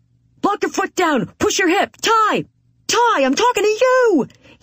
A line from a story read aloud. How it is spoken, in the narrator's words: He's frantic, screaming loud enough to be heard, even with all the chaos and noise around us